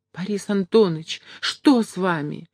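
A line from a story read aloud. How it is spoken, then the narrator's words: Startled cry. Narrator (Russian): бледнее вскрикнула Поленька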